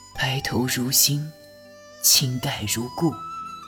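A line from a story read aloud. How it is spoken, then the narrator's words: Low, repeated. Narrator (Chinese): 拓桑 低声连连道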